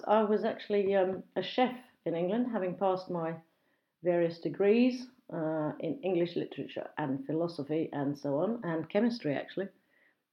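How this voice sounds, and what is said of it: Standard southern English accent. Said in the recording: “I have what we call a BBC English accent, apparently, or a home counties accent”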